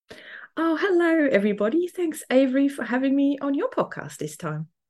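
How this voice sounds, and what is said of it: Slight Swiss German accent. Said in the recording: “oh, there's an accent there ... a little bit of a German accent in there”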